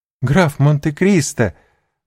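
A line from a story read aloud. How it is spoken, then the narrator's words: Sincere joyful exclamation. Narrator (Russian): воскликнула она с искренней радостью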